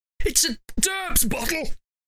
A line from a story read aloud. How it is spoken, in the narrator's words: said Raymond, now sort of coughing and choking and speaking